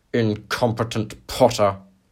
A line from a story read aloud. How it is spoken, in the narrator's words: he spat